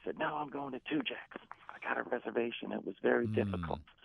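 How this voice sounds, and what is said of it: James Carville impression. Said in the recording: “in his inimitable accent”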